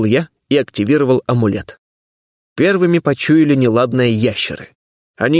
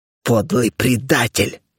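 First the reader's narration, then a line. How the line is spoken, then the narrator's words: Through gritted teeth. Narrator (Russian): Сквозь зубы процедил серый лесолюд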